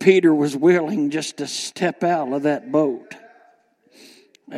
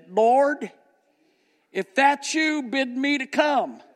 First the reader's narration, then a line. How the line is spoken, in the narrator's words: Peter called out and he said